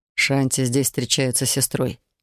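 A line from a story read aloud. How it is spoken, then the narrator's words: Muttered. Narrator (Russian): пробормотал Канте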